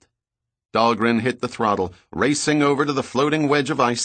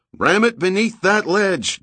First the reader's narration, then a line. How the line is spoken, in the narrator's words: Giordino yelled